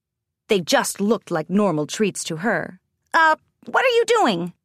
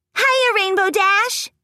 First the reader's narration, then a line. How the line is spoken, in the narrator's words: Pinkie Pie chirped